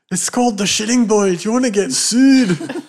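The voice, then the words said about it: Groundskeeper Willie Scottish accent impression. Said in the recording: “I didn't know you could do an accent. ... Groundskeeper Willie.”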